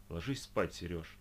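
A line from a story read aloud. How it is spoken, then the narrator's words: Sighing. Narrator (Russian): вздохнула Оля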